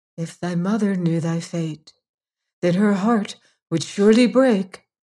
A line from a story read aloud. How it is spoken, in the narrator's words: sighing deeply, the 3 drops of blood said to her